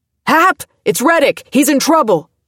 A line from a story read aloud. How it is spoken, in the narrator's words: someone shouted above the melee